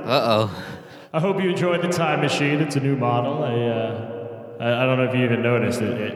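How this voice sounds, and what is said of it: Old-timey genie voice, Elvis-like. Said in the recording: “your genie accent sounds like Elvis without the Southern ... my old-timey pilgrimage genie accent”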